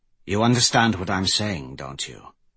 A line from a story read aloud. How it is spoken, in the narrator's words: Grendel asked in a serious tone